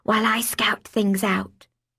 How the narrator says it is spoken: I whispered

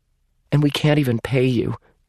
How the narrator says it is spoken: Amy added miserably

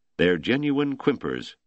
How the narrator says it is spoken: Yancey said

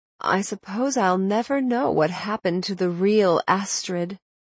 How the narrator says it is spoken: Dorothy said, sighing

